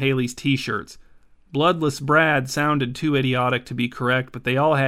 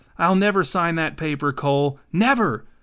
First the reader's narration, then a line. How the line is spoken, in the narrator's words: Haley was now shouting